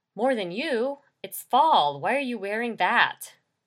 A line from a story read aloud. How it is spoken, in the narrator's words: She laughed